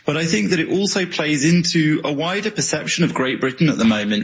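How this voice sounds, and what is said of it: British accent. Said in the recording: “another Brit. We'll listen to anybody with a British accent.”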